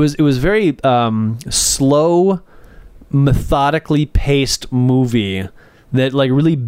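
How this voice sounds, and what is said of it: Usual voice. Nothing is said of it.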